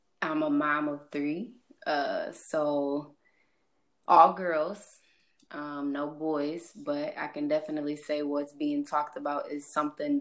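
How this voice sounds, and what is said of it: St. Louis accent. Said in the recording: “I am from St. Louis. Um more specific, St. Charles area, if y'all noticed my accent, I guess.”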